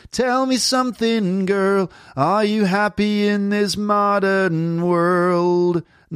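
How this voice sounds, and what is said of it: Nasal American singing accent. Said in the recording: “the American singing accent is generally a bit more nasal from the nose ... A lot of nasal stuff ... Lots of nasal sounds”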